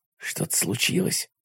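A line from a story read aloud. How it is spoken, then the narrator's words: Whisper. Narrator (Russian): прошептал я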